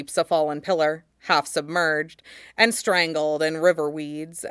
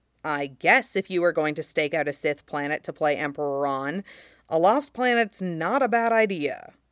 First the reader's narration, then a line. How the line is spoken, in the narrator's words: Cody mutters